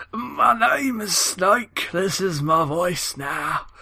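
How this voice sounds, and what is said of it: Wandering put-on old British man accent. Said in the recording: “Why is he Southern? ... No, this isn't a Southern accent. ... Now you're sounding British. ... I was always doing a kind of old British man. Now I'm Gandalf. I can't do an accent that stays in the same place. It always goes walkabouts.”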